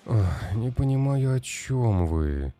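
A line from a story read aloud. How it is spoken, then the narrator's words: Weary sigh. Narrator (Russian): устало вздохнул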